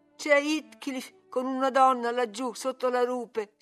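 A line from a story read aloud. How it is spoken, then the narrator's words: Sobbing. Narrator (Italian): singhiozzò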